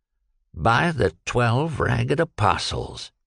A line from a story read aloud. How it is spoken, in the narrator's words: he murmured